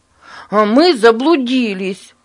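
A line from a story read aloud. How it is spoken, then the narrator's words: Shouted. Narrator (Russian): выкрикнул Борис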